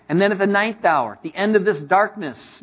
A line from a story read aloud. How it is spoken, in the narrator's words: Jesus cried out with a loud voice, saying